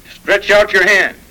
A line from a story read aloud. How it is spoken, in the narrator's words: grieved to find them so obstinate, angrily said, strong language